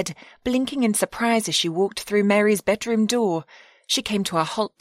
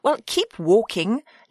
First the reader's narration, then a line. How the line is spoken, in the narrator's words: Lily said irritably